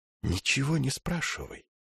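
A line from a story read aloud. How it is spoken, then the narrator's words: Hot whisper at ear. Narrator (Russian): шепот Телемаха горячо обжег ухо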